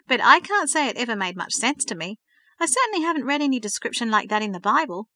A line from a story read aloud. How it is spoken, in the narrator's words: laughed